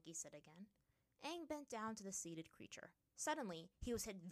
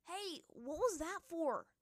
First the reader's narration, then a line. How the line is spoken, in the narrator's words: the avatar yelled, grimacing